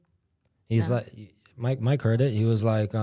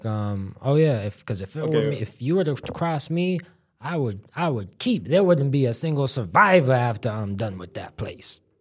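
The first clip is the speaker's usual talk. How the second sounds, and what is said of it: Imitates another person's voice. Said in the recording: “That's a really good impression.”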